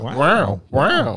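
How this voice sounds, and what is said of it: Imitates another person's voice. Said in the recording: “Give me an Owen Wilson voice.”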